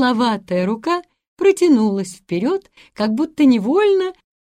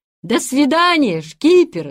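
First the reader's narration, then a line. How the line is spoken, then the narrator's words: Boys shouting. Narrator (Russian): закричали мальчики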